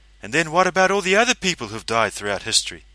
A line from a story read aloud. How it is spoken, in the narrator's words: He sighed